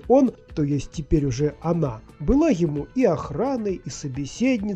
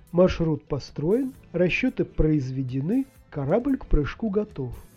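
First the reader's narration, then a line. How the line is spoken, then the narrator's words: Calm, soft report. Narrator (Russian): доложила Эми спокойным мягким голосом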